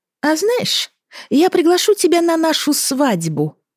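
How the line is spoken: Statement, then hysterical laughter. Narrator (Russian): сообщила Анна и истерично захохотала

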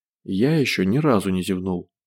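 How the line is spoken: As gentle as possible. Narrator (Russian): сказал по возможности мягко

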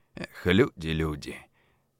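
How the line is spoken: Sighing. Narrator (Russian): вздохнул

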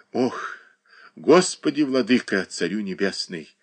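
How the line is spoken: Sighing. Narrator (Russian): вздохнула одна из теней подпольного мира

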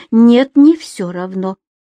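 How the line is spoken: Unexpectedly sharp. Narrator (Russian): неожиданно резко сказал Женин папа

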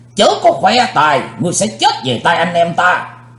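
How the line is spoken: Thunderous shout. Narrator (Vietnamese): Tam Ái Viên Hồng Phương cũng quát tợ sấm

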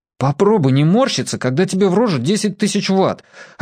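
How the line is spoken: Snapping back. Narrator (Russian): огрызнулся Федя

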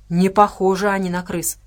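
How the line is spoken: Grumbling. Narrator (Russian): проворчал Феррелл

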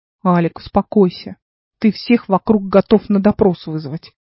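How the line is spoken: Grumbling. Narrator (Russian): проворчал Игорь

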